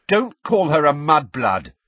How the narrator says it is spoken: said Ron and Ginny together, very angrily

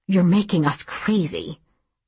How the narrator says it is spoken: Carrie muttered

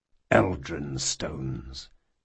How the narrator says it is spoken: muttered Conar

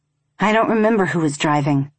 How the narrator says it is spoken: I said

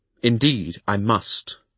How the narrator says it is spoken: I replied firmly

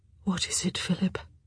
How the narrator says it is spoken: she asked softly

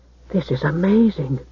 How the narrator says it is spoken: breathed the boy

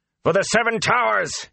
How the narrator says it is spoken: he shouted

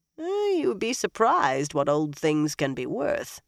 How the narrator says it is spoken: Eilwyn said dryly

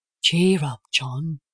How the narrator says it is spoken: I said soothingly

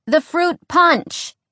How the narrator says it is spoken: Alex said loudly

